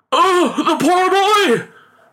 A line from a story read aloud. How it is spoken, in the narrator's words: cried the father in alarm